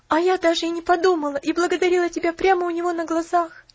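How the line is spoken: Sobbing. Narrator (Russian): всхлипнула Поллианна

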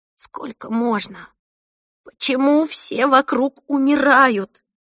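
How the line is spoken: Sobbing. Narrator (Russian): рыдала Эльса

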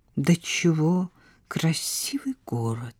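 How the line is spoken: Quiet. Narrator (Russian): тихо произнес Бернар

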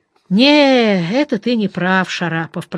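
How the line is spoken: Drawling. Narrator (Russian): протянул Глеб

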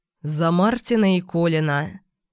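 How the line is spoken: Father's muffled reply. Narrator (Russian): глухо отозвался папа

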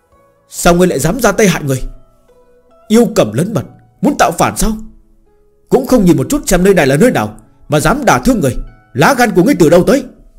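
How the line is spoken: Many voices shouting. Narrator (Vietnamese): vang lên rất nhiều tiếng hét lớn

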